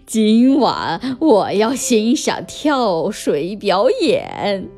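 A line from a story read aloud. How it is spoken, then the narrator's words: Sinister laughing. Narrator (Chinese): 虎克船长奸笑着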